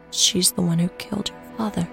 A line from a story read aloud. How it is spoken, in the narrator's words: she whispered